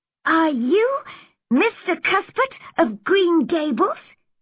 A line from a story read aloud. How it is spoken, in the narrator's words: asked excitedly in a high, sweet voice